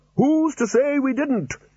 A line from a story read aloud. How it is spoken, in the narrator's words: shouted Ridcully